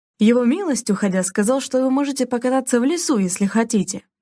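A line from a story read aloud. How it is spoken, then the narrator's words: Joyful announcement. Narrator (Russian): радостно сообщил он ей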